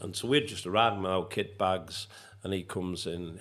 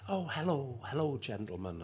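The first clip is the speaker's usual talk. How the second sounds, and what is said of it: Poor imitation of soft Irish accent. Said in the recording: “that soft Irish lilt to him ... I won't do the Irish accent, it's crap. Not the Irish accent's crap, it's my impersonation of it.”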